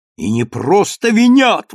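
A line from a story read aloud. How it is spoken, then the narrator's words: Spectator exclaiming. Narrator (Russian): воскликнул один из зрителей за пределами ограды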